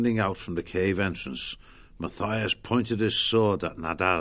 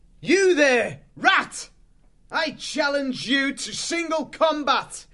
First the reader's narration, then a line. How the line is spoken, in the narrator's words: shouted